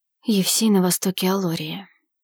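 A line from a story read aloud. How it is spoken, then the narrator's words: Whisper. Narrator (Russian): прошептал Арсений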